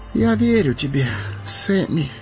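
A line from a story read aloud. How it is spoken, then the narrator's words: Hoarse. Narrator (Russian): хрипло проговорил он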